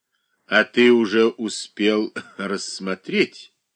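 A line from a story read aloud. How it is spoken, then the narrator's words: Laughing. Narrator (Russian): Засмеялась Анна Васильевна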